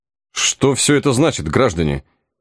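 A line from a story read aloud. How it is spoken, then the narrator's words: Stern. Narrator (Russian): строго спросил я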